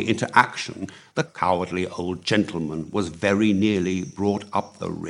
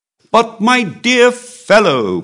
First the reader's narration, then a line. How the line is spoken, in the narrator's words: cried the Comte